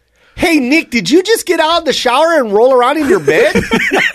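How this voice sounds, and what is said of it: Put-on Wisconsin accent. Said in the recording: “was that a pretty good accent? ... I thought I was in Wisconsin.”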